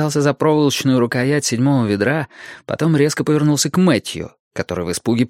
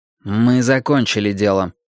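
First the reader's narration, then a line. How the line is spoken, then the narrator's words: Cold. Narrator (Russian): холодно сказал Уинстон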